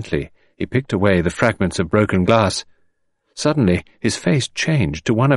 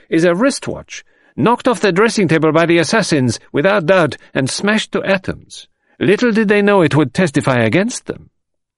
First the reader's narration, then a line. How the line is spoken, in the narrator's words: exclaimed Monsieur Bex